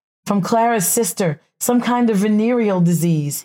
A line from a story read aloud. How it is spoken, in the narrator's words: he sobbed piteously